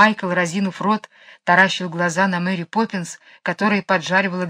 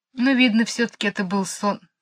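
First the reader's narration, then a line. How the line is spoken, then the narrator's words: Sad. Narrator (Russian): сказала она грустно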